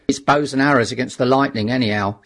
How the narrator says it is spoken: said the artilleryman

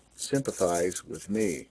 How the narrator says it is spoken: gloomily

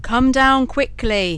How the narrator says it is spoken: shouted Bluebeard

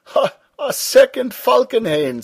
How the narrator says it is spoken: said Stumm, laughing

